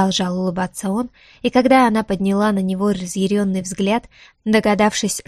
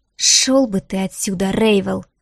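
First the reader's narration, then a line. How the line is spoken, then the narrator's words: Hissed through teeth. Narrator (Russian): процедила она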